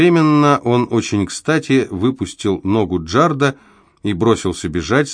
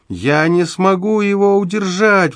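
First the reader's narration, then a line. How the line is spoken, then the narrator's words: Howling. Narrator (Russian): взвыл он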